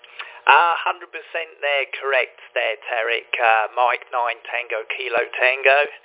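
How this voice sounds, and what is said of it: English London accent. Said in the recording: “A transplanted Englishman from London about 35 years ago. Just haven't seemed to have lost the accent”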